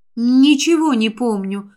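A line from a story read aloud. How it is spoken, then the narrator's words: Sigh. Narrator (Russian): вздохнула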